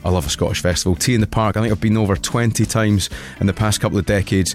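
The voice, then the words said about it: Scottish accent. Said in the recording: “my Scottish brogue”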